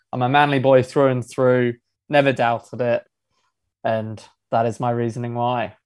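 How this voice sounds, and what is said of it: English accent. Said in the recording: “The accent might throw a few people off. Yes, I'm originally from England”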